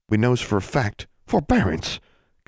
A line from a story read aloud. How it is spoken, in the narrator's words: Constance said sharply